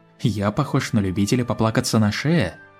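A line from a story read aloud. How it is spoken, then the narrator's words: Somewhat sharp question. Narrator (Russian): несколько резко спросил Фестрал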